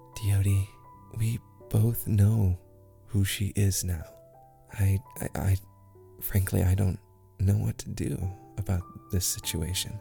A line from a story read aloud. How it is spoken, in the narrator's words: Willow, knowing that Abigail is obviously watching them now, whispers to Diodi